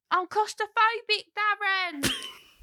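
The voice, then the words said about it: Gemma Collins impression. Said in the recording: “I could do Gemma Collins. ... That was pretty good.”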